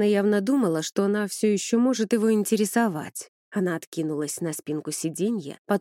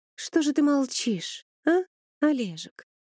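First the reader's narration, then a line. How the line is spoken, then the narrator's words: Cooing. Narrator (Russian): проворковала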